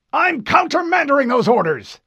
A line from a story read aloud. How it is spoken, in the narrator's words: the Admiral barked